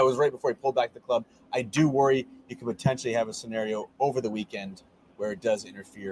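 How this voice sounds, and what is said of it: Usual voice. Nothing is said of it.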